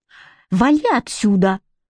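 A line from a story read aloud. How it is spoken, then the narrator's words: Hissing through teeth. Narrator (Russian): прошипел он сквозь зубы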